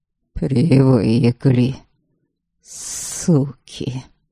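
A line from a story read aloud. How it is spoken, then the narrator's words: Through clenched teeth. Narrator (Russian): процедил Иван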